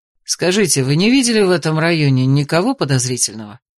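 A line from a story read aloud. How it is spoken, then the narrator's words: Calm, composed questioning. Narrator (Russian): спросил Алистер, ощущая себя более спокойно в привычной роли дознавателя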